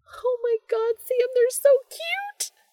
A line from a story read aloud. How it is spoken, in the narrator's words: Jess squeals